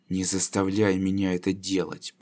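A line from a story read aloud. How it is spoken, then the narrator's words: Grumbled. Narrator (Russian): проворчал Лар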